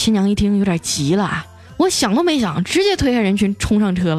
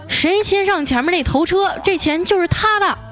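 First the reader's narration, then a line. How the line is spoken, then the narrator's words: Loud shout. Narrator (Chinese): 他高声大喊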